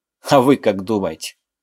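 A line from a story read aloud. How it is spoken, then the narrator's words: Irrepressible snort. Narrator (Russian): Я не удержался и хмыкнул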